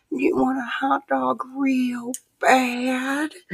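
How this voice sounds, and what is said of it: Whispered imitation of another person's voice. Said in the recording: “whispered in your ear in his best Jennifer Coolidge impression”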